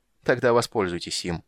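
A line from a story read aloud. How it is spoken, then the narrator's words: Cold interruption. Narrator (Russian): холодно перебил Рейстлин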